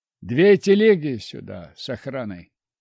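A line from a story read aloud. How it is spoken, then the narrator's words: Quiet command. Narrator (Russian): негромко скомандовал я Ветрову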